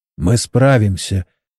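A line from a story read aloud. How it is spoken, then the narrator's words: Quiet, male. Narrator (Russian): тихо сказал инженер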